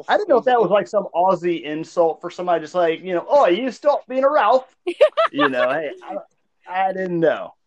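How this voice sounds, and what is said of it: Put-on Australian accent. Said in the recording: “I do love your Aussie accent that you put it on.”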